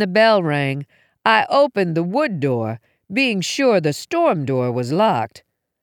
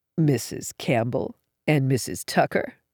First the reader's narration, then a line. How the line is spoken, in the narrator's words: asked in a low, guttural voice